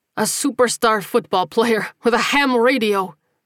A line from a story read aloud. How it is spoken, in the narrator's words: he gasped, still laughing